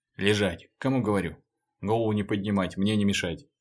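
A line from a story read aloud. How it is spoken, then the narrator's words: Hurried clipped spat phrases. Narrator (Russian): Даже не произнося, выплевывая короткие фразы, Леха торопливо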